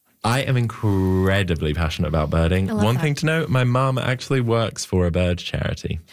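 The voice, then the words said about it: British accent. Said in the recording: “I am in fact from the UK, which may come as a shock because of my accent.”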